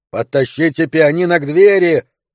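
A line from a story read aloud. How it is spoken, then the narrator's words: Yelling. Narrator (Russian): завопил Тео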